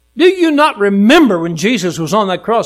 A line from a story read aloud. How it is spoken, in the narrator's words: he cried out